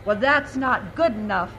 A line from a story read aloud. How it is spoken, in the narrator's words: my grandmother said